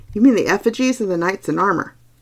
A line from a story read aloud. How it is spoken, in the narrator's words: said cheerfully